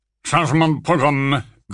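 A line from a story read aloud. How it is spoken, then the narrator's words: Grunting. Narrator (French): grogna Folleuil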